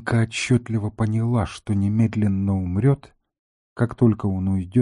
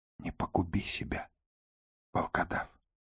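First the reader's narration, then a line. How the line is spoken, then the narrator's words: Whispering. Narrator (Russian): прошептала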